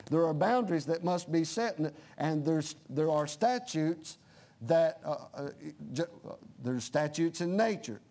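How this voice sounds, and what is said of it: Southern American accent. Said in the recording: “my southern accent's”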